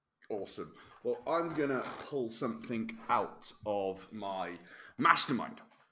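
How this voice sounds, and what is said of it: Speaking very slowly. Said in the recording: “said that really slowly”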